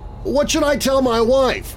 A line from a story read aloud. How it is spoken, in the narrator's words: George shouted